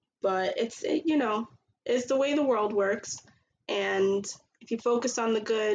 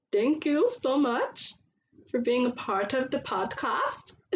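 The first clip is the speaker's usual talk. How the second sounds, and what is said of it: Unidentifiable put-on accent. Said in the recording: “Don't know what accent that was.”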